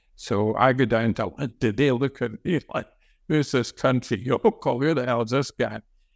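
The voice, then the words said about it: Working-class Glasgow accent. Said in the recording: “I've got a working class Glasgow accent.”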